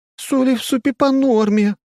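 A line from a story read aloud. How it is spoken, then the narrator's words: Indignant sobbing. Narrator (Russian): в гробовом молчании возмущенно всхлипывает Тася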